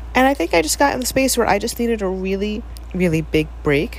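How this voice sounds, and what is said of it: Nasal, congested-sounding voice. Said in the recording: “if I sound nasally. I'm presuming it's because of the gluten I had yesterday”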